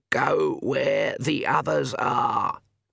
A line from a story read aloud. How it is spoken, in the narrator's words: Granny Weatherwax croaked